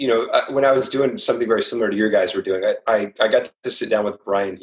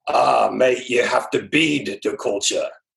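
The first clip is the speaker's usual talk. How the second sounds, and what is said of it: Poor Australian accent impression. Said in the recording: “That's my worst impersonation ever. I'm sorry. ... he's Australian. I'm horrible.”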